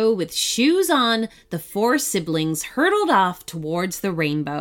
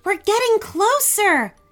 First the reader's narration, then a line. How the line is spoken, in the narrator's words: shouted Nicole, surprised at how easy this all appeared to be